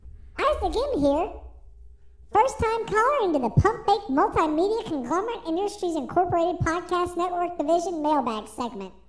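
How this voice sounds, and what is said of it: Baby voice. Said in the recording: “In baby voice”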